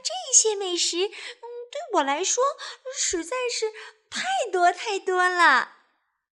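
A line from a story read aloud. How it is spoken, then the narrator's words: Smiling. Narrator (Chinese): 秀珍小姐笑着说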